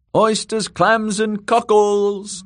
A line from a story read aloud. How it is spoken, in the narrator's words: the girl shouted